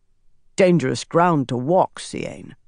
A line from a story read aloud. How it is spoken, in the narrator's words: Saren said, her voice gruff